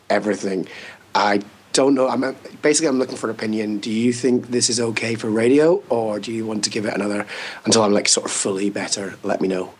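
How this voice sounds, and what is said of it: Sore, hoarse-sounding voice. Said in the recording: “Sounds sore. Sounds painful.”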